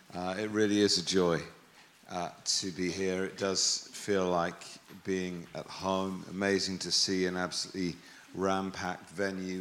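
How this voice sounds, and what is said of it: English accent. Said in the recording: “Doesn't sound as good with an English accent, does it?”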